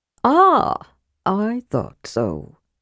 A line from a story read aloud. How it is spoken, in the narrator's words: said Tasselhoff softly